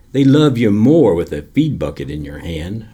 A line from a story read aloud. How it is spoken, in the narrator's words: said